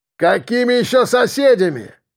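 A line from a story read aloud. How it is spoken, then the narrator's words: Booming distant voice. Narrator (Russian): прогремел оттуда голос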